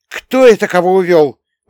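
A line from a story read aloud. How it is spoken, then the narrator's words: Indignant interjection. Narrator (Russian): возмущенно мешалась Стойка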